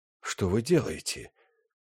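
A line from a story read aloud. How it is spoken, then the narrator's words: Agitated whisper from behind. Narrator (Russian): Эти слова были произнесены за ее спиной взволнованным шепотом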